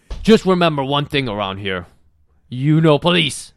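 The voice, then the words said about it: Put-on Israeli accent. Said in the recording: “That's your interpretation of Israeli accent.”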